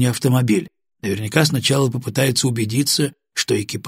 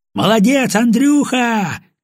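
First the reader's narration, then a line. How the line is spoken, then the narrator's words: Shout. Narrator (Russian): крикнул Гаврилов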